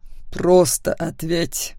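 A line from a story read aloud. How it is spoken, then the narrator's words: Through gritted teeth. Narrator (Russian): вновь процедил Макс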